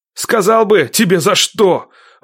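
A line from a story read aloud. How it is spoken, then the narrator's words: Angry shout. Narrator (Russian): выкрикнул зло Никита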